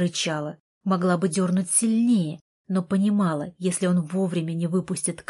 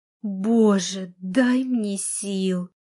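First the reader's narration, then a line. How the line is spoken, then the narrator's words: Moan. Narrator (Russian): простонала я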